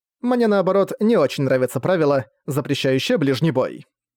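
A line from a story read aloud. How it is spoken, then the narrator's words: Snide, smirking. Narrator (Russian): сказала, ехидно ухмыляясь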